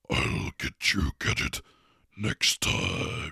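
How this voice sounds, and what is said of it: Menacing Dr. Claw impression. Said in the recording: “I could do a very menacing Dr. Claw from Inspector Gadget”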